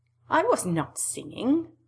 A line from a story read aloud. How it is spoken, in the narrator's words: Hinako said indignantly